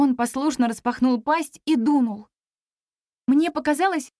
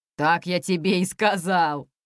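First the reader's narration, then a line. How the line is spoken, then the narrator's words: Guffawing. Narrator (Russian): захохотал Ирлан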